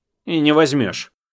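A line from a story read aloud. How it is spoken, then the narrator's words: Sharp interrupting. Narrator (Russian): резко оборвал его Аня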